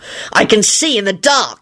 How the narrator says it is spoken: he snarled

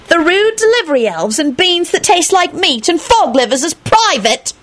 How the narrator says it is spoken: she snapped

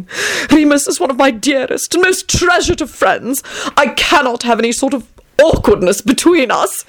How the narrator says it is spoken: he cried out and burst into tears

